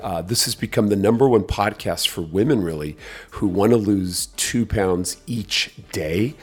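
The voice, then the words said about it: Scratchy voice. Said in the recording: “Pardon my voice, it's a little scratchy”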